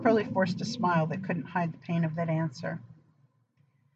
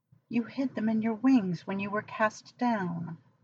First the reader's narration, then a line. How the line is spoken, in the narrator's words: Aziraphale said, so brokenly